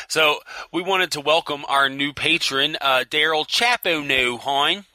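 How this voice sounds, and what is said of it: Exaggerated put-on Baltimore accent. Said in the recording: “I'm going to pronounce it in a horrible Baltimore accent.”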